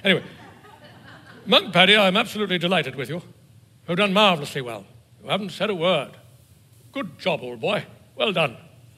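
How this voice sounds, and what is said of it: Put-on English accent. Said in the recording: “How come the abbot always has an English accent?”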